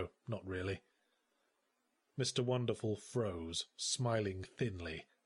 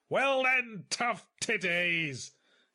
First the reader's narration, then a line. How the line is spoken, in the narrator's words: he screamed